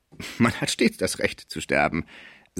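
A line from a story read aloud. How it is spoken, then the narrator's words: Laughing clerk. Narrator (German): sagte der Schreiber lachend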